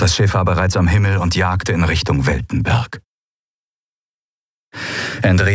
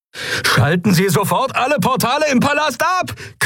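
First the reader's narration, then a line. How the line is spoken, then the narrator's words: Shrieking over sirens. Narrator (German): kreischte Galet über die Sirenen hinweg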